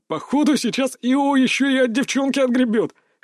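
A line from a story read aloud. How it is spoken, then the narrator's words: Chuckling student. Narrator (Russian): хохотнул кто-то в группе учеников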